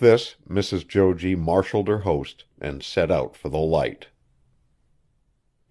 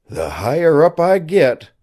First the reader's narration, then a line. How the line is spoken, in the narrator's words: he panted